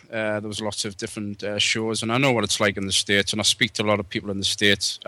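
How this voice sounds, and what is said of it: British accent, not Australian. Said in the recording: “I'm from the UK originally... That's why I haven't got an Australian accent.”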